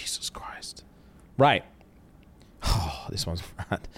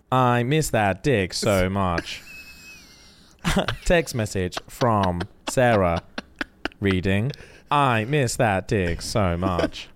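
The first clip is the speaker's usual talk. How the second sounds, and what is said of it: Robotic Siri voice impression. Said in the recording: “In a Siri voice”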